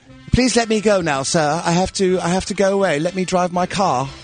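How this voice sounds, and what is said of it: Exaggerated mock British accent. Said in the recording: “She's in full-blown British accent mode now. ... She did her deposition in an accent.”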